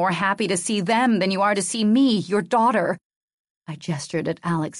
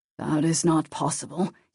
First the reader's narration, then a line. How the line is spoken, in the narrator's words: he answered quietly